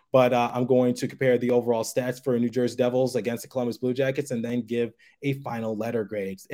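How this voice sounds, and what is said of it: Strained voice close to giving out. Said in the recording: “my voice is about to give out on me”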